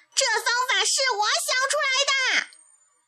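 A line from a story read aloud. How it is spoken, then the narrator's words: Furious loud frog. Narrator (Chinese): 青蛙气坏了，就大声嚷起来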